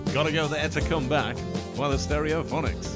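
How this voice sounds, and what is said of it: Radio DJ announcer voice. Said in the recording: “Is that your best DJ voice? ... Yeah, not my best.”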